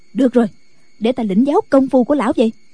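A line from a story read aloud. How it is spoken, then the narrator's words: Impatient shout. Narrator (Vietnamese): Không nhẫn nại được nữa, bà quát lên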